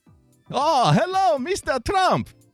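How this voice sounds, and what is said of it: Generic foreign accent, sounds Russian. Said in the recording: “my Spanish accent sounds Russian. That's my general accent for people other than Brits, Americans, and Australians.”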